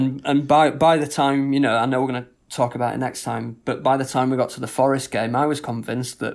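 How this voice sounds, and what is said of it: Usual voice. Nothing is said of it.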